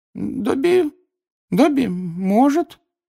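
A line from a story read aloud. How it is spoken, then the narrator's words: Uncertain drawl. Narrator (Russian): неуверенно протянул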